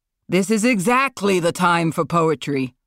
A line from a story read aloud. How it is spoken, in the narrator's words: Marlon shouted